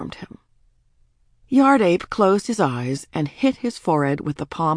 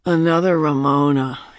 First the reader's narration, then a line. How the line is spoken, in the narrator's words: said, and groaned